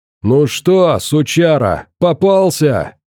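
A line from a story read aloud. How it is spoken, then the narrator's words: Hoarse distant yelling. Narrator (Russian): хриплый голос орал метрах за 100 правее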